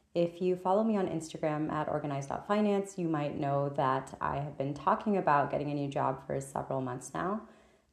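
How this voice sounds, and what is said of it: Slightly scratchy voice. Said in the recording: “recovering from a cold and a cough, so my voice is a little bit scratchy”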